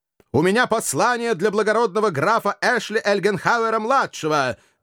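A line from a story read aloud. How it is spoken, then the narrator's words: Loud announcement. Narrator (Russian): громко объявил всадник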